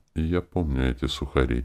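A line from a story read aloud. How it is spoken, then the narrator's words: Quiet whisper. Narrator (Russian): тихо прошептал Виктор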